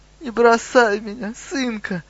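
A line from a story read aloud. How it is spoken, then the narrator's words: Sobbing old elder. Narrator (Russian): рыдал старейшина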